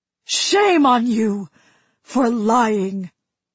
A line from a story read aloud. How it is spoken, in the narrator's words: His voice was hoarse and broken, but still it cut through